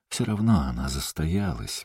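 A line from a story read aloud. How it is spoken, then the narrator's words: Gentle objection. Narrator (Russian): мягко возразил Тидженс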